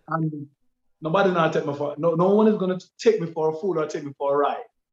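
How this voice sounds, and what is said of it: Switches to standard English accent. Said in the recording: “Why did you put on the standard English a while ago ... Why did you twang to the standard English a while ago?”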